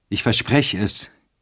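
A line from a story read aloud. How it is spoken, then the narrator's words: Calling out. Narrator (German): rief er ihr entgegen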